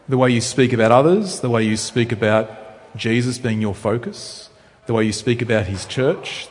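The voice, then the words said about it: Rural Australian accent, slower speech. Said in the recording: “You can tell I'm from Australia, I hope, by how I speak. ... So I come from rural Australia. Maybe I talk a bit slower.”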